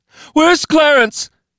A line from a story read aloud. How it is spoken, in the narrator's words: She screamed to no one, to everyone